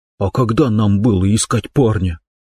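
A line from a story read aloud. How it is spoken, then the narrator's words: Angry whisper. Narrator (Russian): спросила Квин таким же сердитым шепотом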